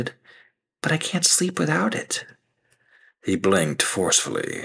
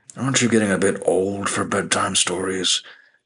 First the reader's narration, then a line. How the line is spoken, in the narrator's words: He grunted, frustration mounting